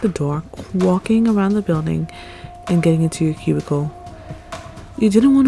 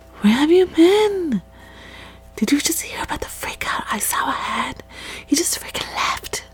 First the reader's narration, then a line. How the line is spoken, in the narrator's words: Nomura came by, getting close and whispered in your ear